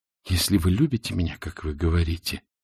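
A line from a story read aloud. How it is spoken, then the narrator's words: Whisper. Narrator (Russian): прошептала она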